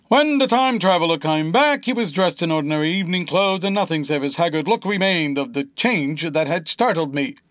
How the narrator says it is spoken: was saying, or rather shouting

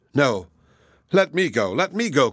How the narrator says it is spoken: cried the others

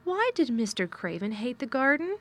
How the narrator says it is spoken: she said

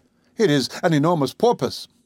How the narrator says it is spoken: cried

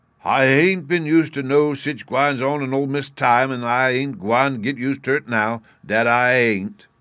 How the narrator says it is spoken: he continued in the same loud tone

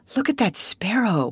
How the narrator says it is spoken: whispered Sarah

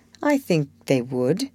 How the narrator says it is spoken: came from under the hat in a grim tone, quite as touching as a broken one

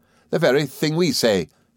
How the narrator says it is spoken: cried Traddles

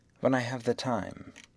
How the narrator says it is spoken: replied Phileas Fogg quietly

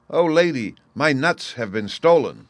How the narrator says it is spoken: he cried

